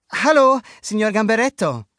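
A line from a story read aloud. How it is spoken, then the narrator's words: Calling out. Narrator (German): rief Luca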